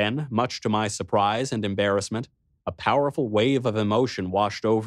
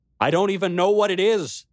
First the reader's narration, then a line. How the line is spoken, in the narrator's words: I cried out to the king, my voice breaking